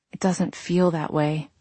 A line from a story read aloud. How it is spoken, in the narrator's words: I whispered